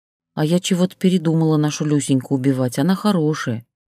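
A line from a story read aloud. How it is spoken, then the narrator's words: Glum. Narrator (Russian): уныло сообщила Ксения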